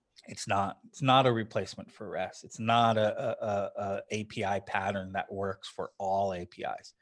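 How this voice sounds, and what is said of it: Hoarse, strained voice. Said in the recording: “Excuse me, I'm losing my voice.”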